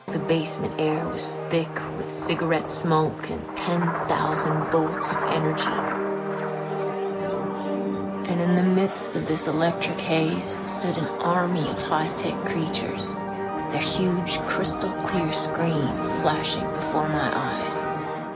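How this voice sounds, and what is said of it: Dramatic narration with vocal fry. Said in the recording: “That vocal fry”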